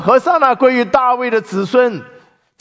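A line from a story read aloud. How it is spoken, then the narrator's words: Loud voice. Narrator (Chinese): 有人高声说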